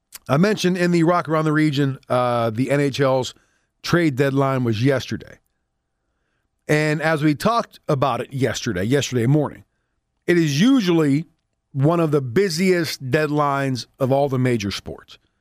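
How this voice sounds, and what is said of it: Rough, hoarse voice. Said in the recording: “my voice is a little rough today. Can you tell? ... The allergies flaring up.”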